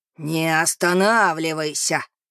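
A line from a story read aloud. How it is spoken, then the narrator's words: Furious growl. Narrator (Russian): зарычал взбешенный Рикардо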